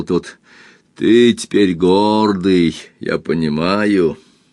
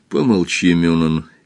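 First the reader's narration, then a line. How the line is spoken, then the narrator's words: Quiet request. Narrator (Russian): тихо попросил Арленд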